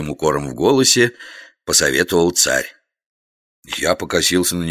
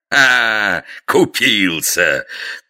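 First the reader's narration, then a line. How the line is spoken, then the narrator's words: Sovereign laughing loudly. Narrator (Russian): захохотал государь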